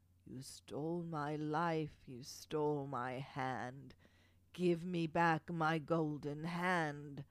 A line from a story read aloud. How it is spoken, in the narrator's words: the dead wife howled